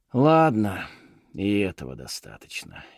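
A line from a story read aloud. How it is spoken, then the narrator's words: Sighing. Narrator (Russian): Фишер вздохнул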